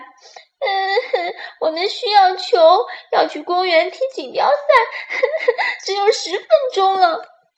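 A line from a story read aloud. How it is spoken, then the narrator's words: Wailing, crying. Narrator (Chinese): 小鹿吉大哭起来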